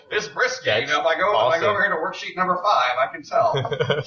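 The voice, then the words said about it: Bad put-on Canadian accent. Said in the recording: “That was a bad Canadian impression, don't you know?”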